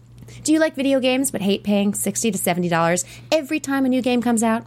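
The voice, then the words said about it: Announcer-style voiceover voice. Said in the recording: “I'm going to read this in my best voiceover voice like I did last week”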